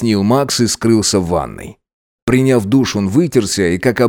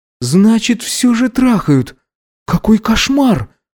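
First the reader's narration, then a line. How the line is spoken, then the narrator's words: Stunned exhale. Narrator (Russian): выдохнул он ошарашенно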